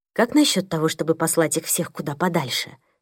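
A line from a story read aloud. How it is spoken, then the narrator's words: Whispered question. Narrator (Russian): спросила Мия шепотом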